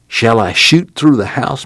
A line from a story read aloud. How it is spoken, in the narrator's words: Muley whispered